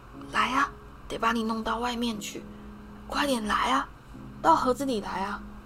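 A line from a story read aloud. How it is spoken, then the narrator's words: Hoarse whisper. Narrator (Chinese): 某个人沙哑的耳语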